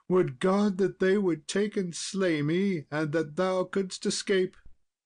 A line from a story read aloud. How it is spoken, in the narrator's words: bitterly she wept and moaned and cried